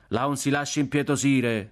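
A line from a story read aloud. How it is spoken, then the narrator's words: Young man shouting. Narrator (Italian): gridò un giovinotto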